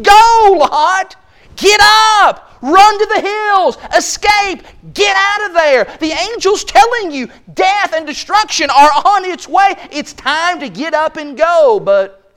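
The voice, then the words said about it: Shouting. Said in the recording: “I'm shouting at my Bible”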